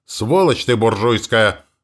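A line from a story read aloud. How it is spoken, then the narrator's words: Roaring woman. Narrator (Russian): взревела тетка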